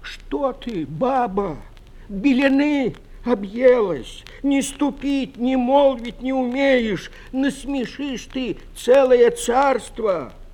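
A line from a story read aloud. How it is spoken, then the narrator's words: Frightened pleading old man. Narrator (Russian): Испугался старик, взмолился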